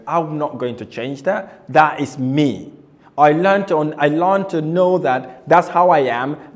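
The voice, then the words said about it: Foreign accent. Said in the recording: “not being born in this country ... I was worried about my accent ... my accent is my accent ... Nothing else will change me from sounding the way I sound.”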